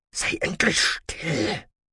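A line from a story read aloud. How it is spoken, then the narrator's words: Hiss. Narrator (German): zischte Lothan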